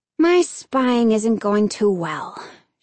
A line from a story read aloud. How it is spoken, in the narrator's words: she sighed